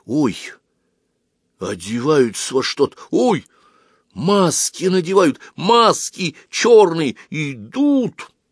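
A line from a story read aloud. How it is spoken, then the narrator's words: Hurried whisper. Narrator (Russian): Оська торопливо прошептал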